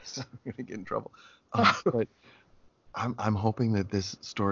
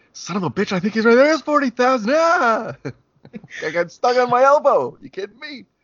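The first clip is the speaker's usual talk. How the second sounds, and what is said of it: Yelling in an exasperated character voice. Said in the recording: “Oh, I'm yelling.”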